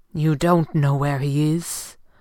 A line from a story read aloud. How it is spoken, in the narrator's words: Fenwick asked grimly